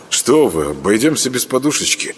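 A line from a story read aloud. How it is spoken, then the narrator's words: Mumble. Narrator (Russian): пробормотал Саня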